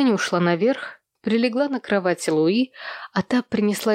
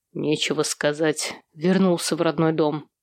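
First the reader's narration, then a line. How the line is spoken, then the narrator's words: Grumbling mutter. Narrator (Russian): буркнул Сэм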